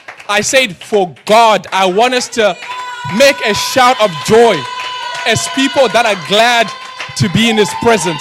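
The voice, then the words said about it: African-accented English. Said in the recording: “my African accent”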